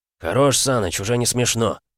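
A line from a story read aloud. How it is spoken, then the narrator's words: Muttering. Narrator (Russian): пробурчал Грибко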